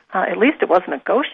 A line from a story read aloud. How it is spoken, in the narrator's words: she giggled